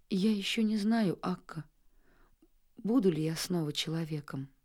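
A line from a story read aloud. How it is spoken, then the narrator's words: Boy's sad remark. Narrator (Russian): мальчик заметил грустно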